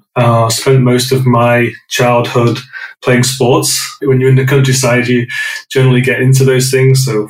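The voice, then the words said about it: British accent, northwest England. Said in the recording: “I grew up in a small village in the northwest of England. Those that didn't recognize the accent, I'm British”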